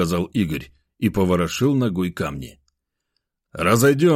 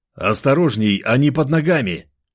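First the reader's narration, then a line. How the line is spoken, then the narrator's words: Shout. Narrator (Russian): прокричал я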